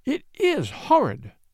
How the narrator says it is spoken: she sobbed

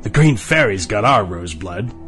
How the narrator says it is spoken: the Max in the arch laughed

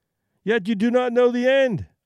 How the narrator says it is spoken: I cried triumphantly

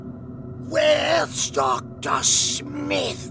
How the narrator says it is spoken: croaked out

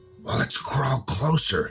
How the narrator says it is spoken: Jim whispered

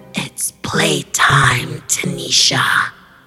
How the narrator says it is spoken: She then croaked

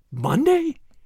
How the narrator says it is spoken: gasped McAvoy

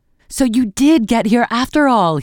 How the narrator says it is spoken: he exclaimed

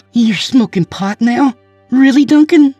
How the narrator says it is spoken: She gasped

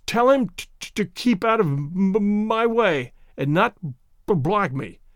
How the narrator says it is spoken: stuttered Tay-Tay Mulder

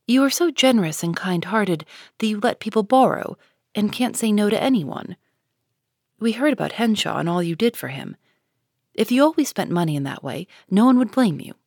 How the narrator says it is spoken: said Joe warmly

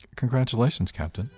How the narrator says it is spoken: he said

